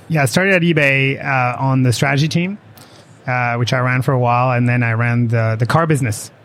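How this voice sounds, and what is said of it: French accent. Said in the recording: “you have an unusual accent... you ain't from around here... I'm from France, actually.”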